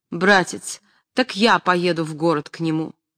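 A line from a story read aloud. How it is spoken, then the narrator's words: Firm voice. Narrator (Russian): Настасья Андреевна твердым голосом сказала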